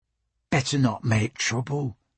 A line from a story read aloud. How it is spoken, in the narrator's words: Abigail said quietly